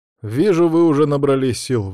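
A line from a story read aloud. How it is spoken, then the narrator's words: Sighing. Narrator (Russian): вздохнул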